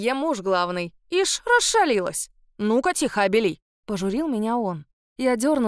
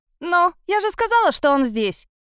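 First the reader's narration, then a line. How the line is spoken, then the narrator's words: Loud bratty girl. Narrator (Russian): громко заявила противная девчонка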